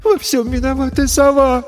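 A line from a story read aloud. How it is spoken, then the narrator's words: Sobbing. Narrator (Russian): всхлипнула Ресси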